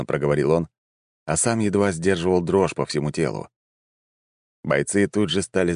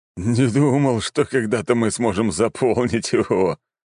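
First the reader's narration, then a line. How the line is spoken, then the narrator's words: Short laugh. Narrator (Russian): хохотнул начальник гвардии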